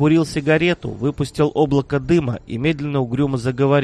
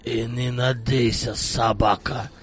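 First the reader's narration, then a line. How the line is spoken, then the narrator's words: Through gritted teeth. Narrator (Russian): процедил Салман Хаджи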